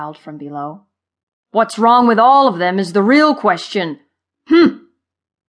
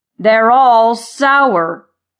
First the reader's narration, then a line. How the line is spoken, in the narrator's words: Thud roared